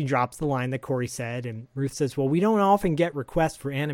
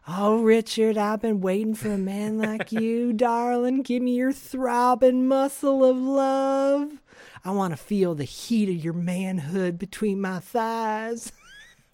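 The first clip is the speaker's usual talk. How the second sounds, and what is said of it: Put-on Southern accent. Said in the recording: “immediately goes in this southern accent.”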